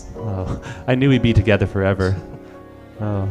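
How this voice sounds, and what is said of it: Usual voice. Nothing is said of it.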